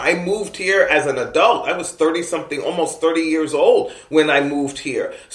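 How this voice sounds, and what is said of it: East Coast American accent. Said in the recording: “People always know I'm from the East Coast, not just by my accent”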